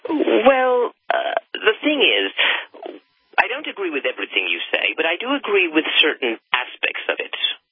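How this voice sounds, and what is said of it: British accent. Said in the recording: “I can guess that you're from Britannia... Sounds like your voice. It sounds like a fake accent”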